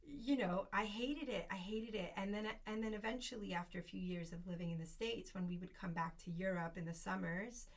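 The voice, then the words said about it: Speaks English with a twang. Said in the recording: “I didn't always speak English with this twang that I have now”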